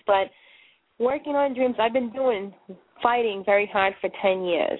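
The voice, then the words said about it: Boston accent. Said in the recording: “I do talk funny. I've got the Boston accent”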